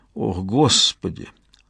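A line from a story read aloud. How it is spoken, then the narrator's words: Muttered. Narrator (Russian): пробормотал Стивен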